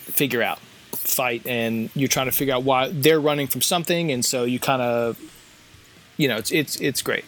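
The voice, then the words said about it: Stuttering, hesitant speech. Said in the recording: “I'm stuttering here”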